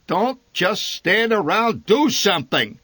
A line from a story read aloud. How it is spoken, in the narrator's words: he bellowed